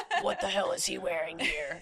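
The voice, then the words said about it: Gravelly Batman character voice. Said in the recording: “You could do it in a Batman voice.”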